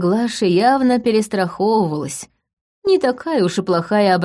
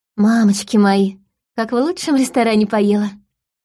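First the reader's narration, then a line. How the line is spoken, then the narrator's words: Contented breathy exclamation. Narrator (Russian): выдохнула Полина, довольно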